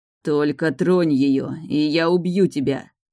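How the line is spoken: Unrecognizable growl. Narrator (Russian): прорычал Эйрин таким голосом, что я его едва узнала

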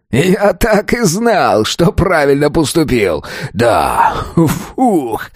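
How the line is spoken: Relieved exhale. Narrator (Russian): Выдохнул

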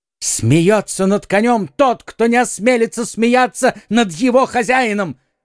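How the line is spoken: Furious exclamation. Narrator (Russian): воскликнул в бешенстве подражатель де Тревиля

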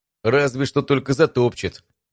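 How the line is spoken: Uneasy snort. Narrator (Russian): поежившись, хмыкнул Стас

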